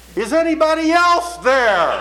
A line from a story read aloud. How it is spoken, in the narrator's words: after a long and considered silence, he shouted out